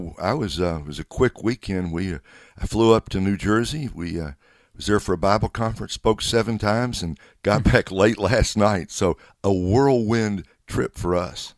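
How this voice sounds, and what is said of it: Slightly froggy, rough voice. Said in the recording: “my voice is a little bit froggy ... I can tell that a little bit. I mean, you're not hoarse, but you're a little ... froggy”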